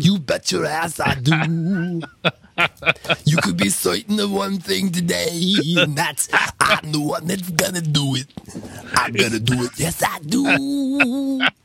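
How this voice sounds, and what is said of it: Imitates another person's singing voice. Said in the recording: “your impression of Tom Waits ... Randy Newman. Oh, I heard so much Randy Newman in it.”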